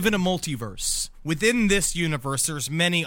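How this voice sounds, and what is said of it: Usual voice. Nothing is said of it.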